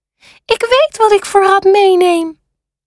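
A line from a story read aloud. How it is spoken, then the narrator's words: Calling out. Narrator (Dutch): Hij roept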